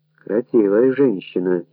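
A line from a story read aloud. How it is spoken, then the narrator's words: Quiet. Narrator (Russian): тихо сказал Галиб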